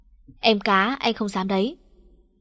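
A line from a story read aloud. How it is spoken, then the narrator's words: Huff, then cheerful teasing. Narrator (Vietnamese): Tôi hừ một tiếng rồi mặt mày hớn hở nói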